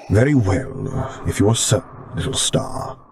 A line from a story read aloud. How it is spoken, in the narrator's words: he rumbled